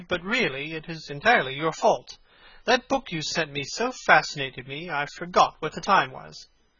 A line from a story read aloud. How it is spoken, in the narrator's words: he cried